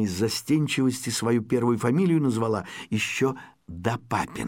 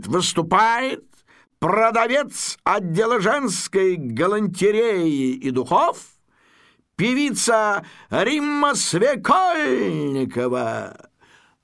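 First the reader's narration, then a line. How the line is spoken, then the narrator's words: Formal announcer voice. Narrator (Russian): Ведущий программы, такой манекеноподобный гражданин Масленков, таким специально объявлятельным голосом говорит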